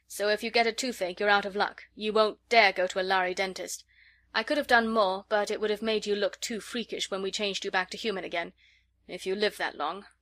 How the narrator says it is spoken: he added grimly

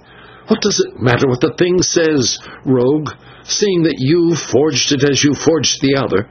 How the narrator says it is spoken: the Signor said fiercely

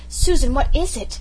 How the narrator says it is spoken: Blythe cried out in sudden panic

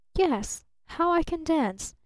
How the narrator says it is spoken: she murmured almost inaudibly

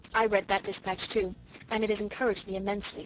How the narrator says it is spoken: said Gertrude

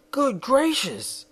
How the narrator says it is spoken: exclaimed Shaggy

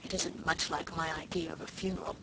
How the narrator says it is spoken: muttered Sarah Ray discontentedly

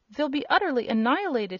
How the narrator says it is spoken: he gasped

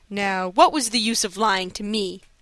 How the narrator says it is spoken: asked, with a laugh

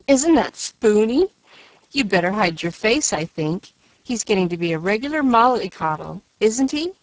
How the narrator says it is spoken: jeered Joe

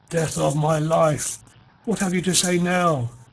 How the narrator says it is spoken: he cried, his voice husky

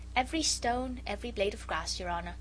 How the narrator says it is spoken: replied the Jew quietly

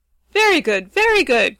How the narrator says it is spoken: cried Ruggedo, gleefully

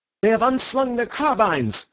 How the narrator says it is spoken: cried Bull, dancing with excitement

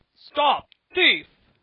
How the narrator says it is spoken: roared Mr

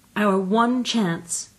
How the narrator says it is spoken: cried Anthea dramatically

